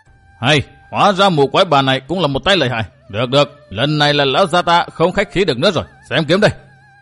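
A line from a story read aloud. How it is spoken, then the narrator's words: Roaring. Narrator (Vietnamese): gã họ Tả bèn gầm lên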